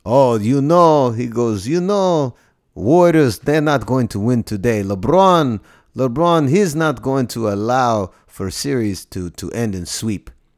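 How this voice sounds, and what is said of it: Slight put-on Eastern European accent. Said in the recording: “He's got this, like, you know, Eastern European accent that I'm doing slightly. Just like there's an embellishment to it, but that's basically what he sounds like.”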